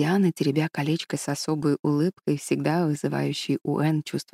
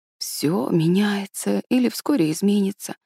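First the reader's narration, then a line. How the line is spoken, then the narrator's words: Sad. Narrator (Russian): печально проговорила Диана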